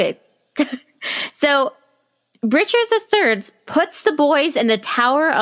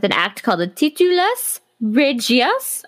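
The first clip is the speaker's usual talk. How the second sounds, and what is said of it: Attempted French accent. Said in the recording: “I was trying to say it like a French accent.”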